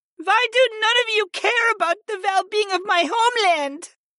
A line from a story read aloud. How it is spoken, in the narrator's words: Vala whimpered